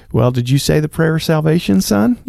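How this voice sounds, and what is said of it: Put-on Southern accent. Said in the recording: “whenever I go into churchy mode, I speak ... In a Southern accent.”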